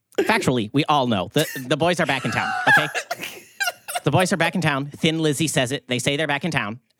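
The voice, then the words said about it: Ben Shapiro impression. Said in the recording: “do that one more time for me in a Ben Shapiro voice”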